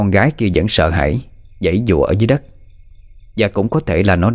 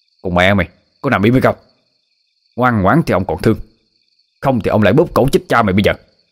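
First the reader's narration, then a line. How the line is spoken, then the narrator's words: Harsh snarling shout. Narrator (Vietnamese): Hắn ta gằn giọng lên mà quát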